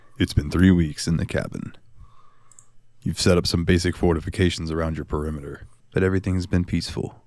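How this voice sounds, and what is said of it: Dramatic storytelling narrator voice. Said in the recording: “narrator voice”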